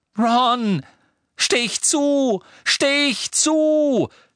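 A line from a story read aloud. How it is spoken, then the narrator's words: Scream. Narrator (German): schrie Harry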